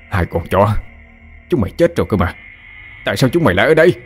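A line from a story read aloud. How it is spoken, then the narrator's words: Nonstop yelling. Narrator (Vietnamese): mồm miệng không ngừng la hét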